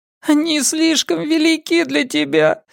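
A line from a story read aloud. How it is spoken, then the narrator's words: Child sobbing. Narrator (Russian): зарыдал мальчик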